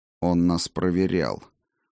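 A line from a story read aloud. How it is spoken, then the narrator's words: Low voice. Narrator (Russian): вполголоса произнес я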